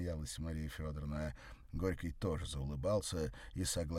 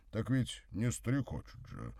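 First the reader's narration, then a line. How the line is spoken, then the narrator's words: Snorting explanation. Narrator (Russian): хмыкнув, пояснил Горький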